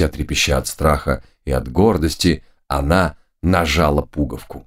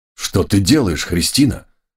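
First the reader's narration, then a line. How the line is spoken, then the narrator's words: Exclamation. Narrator (Russian): воскликнул барон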